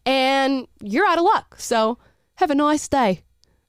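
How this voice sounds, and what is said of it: Put-on Australian accent. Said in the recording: “I don't know why I did that in an Australian accent”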